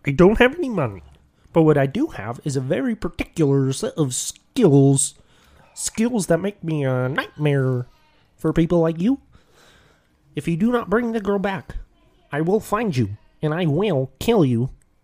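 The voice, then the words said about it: Kermit the Frog voice impression. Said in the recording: “he does the Taken line with the Kermit”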